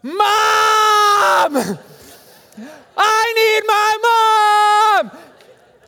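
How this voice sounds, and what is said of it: Yelling for mom. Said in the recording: “I'm yelling for my mom”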